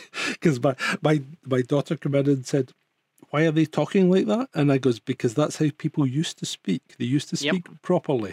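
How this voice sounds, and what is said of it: Mild Scottish accent. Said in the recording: “I give it as best as I can being Scottish... I'm not terribly broad, am I, with the accent?”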